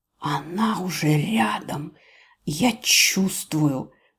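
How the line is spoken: Venomous, barely audible hiss. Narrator (Russian): ядовитого шипения почти на грани слышимости

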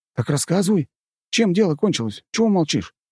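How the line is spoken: Impatient exclamation. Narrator (Russian): нетерпеливо воскликнул Нарышкин

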